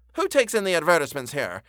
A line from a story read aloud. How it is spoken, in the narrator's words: exclaimed Kovalov